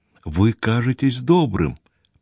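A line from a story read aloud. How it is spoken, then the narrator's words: Quiet. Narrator (Russian): проговорила тихо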